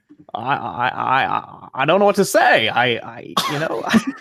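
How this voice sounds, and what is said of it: Imitates another person's voice. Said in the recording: “the ghost of Jimmy Stewart just ... that was actually really good.”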